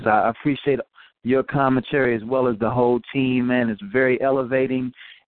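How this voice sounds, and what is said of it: Smooth radio-style voice. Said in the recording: “You got a good radio voice.”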